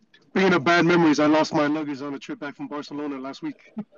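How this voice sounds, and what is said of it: Hoarse, partly lost voice. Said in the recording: “I lost my voice a little bit”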